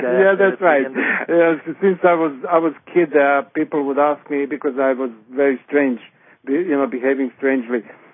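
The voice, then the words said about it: Speaks with a non-native accent. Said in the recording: “Only if you don't mind my accent ... I'm an alien here.”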